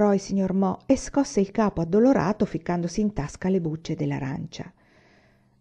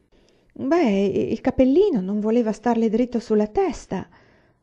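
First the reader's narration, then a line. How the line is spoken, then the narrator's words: Stammered. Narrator (Italian): balbettò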